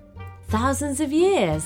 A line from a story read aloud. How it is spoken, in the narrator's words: gasped Mia